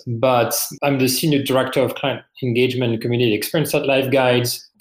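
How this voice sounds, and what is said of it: French accent. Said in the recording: “As you can probably hear from my accent, I'm originally from France.”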